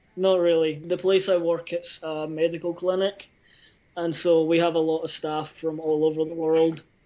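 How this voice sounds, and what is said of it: Scottish accent. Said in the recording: “your accent ... my first language is Scots and my second language is English”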